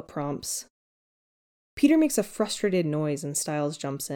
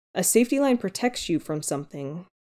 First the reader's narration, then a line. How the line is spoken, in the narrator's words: Noah says